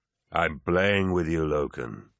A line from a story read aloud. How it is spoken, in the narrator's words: Abaddon sent, his voice so deep that some vowel sounds were blurred by the vox